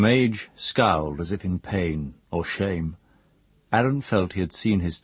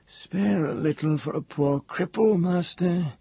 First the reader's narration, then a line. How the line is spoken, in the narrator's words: whined